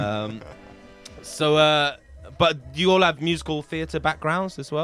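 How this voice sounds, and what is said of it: Usual voice. Nothing is said of it.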